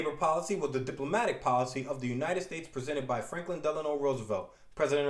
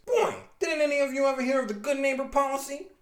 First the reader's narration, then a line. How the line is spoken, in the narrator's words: Spidey screams